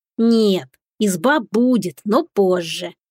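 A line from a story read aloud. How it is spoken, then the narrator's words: Lazy drawl. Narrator (Russian): с линцой протянул кот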